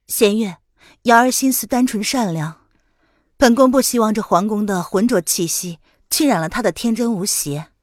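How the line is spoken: Calm, mild explanation. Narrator (Chinese): 林渊开口淡淡的解释道

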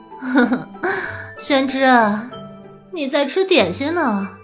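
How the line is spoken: Laughing. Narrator (Chinese): 他笑道

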